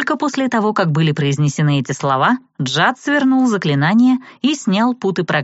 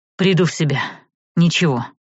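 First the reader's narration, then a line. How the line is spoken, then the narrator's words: Tired. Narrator (Russian): устало ответил он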